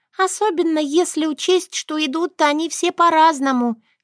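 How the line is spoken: Giggling. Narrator (Russian): хихикнула Шушана

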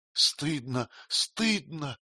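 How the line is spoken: Indistinct mutter. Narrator (Russian): неясно пробормотал он

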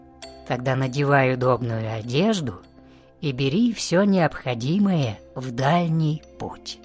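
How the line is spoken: Plain. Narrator (Russian): сказал повелитель сказок

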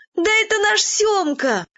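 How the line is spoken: Joyful shouting. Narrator (Russian): радостно кричали

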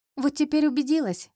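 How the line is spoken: Giggled. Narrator (Russian): хихикнула она

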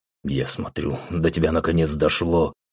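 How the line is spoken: Snorting. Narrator (Russian): хмыкнул Рэм

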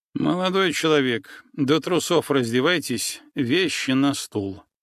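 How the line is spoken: Cold. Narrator (Russian): холодно проговорил врач

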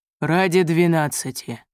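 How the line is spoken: Grumble. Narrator (Russian): проворчал

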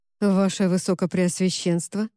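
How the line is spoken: Forced calm. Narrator (Russian): произнес он, стараясь говорить спокойно

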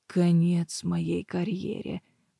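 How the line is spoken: Muttering under breath. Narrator (Russian): пробормотал себе под нос Мэддокс

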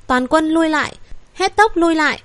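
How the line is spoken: Shaken but decisive shout. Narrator (Vietnamese): Sắc mặt Tề Chấn Thương run rẩy, lại không chút do dự hét lớn

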